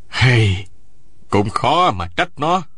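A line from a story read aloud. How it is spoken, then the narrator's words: Sighing. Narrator (Vietnamese): Nguyễn Sĩ Trung thở dài một tiếng nói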